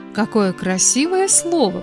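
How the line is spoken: Drawn-out singsong. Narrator (Russian): произнес Кирилл и повторил нараспев

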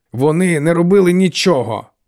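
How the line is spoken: Barked. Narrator (Ukrainian): гаркнув Тео

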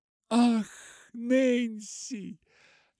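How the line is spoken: Joyful exclamation. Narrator (Russian): ликуя воскликнула Полианна

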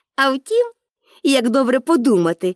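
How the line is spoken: Cheerful. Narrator (Ukrainian): додала вже весело

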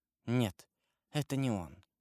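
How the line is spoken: Whispered. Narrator (Russian): прошептала она

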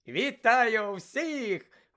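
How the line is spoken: Cheerful exclamation. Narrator (Ukrainian): весело вигукнув Бегмен

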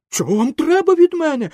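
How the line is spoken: Shouting. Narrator (Ukrainian): закричав Пінокіо

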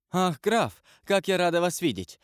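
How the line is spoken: Delighted exclamation. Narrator (Russian): воскликнула она

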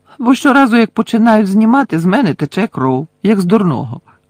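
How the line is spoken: Cheerful explanation. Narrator (Ukrainian): весело пояснив містер Візлі

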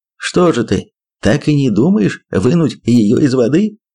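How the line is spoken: Choking with laughter. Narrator (Russian): проговорил Джордж, захлебываясь от хохота

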